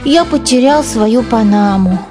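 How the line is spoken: Sad. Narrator (Russian): печально сказал Генри

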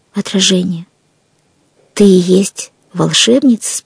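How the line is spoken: Plain. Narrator (Russian): спросила она

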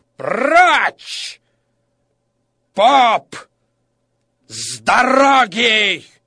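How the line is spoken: Angry shout. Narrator (Russian): Лицо справедливого перекосилось от злости, и он закричал

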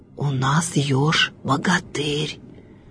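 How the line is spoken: Frightened animals whispering. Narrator (Russian): Шепотом со страху говорили звери

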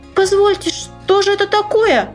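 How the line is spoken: Tiny creature squeaking. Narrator (Russian): запищала козявочка

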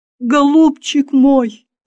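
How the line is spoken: Sobbing. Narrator (Russian): рыдала Ксения

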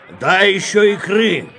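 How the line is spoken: Shout. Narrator (Russian): крикнул сосед

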